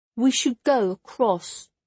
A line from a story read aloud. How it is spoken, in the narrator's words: Jula said, her voice small in all that empty space